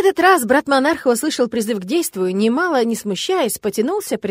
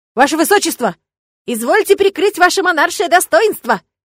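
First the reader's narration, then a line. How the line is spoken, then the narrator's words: Shouting into ear. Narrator (Russian): прокричала она в ухо Максимилиану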